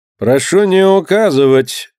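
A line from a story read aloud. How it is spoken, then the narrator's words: Dry, curt. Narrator (Russian): сухо сказал жандармский офицер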